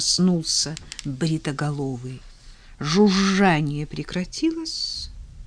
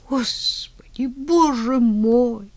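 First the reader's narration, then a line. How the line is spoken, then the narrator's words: Pleading. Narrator (Russian): взмолился бритоголовый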